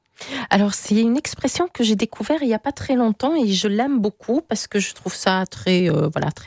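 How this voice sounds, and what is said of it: Hungarian accent speaking French. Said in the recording (French): “avec un accent comme j'ai... Vous parlez d'accent, il vient d'où votre accent... Je suis hongroise.”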